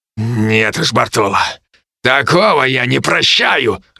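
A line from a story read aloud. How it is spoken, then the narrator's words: Growling. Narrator (Russian): рыкнул Феликс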